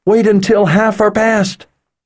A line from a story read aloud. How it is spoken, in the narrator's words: yelled